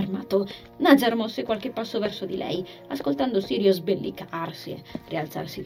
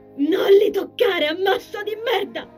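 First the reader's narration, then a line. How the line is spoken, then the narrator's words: Shrieking. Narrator (Italian): lei strillava a Larit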